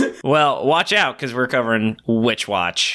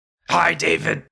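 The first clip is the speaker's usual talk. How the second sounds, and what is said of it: Ogre character voice. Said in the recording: “You couldn't do an ogre accent?”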